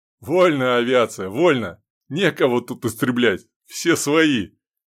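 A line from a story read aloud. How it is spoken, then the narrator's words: Laughing. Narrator (Russian): Рассмеялся майор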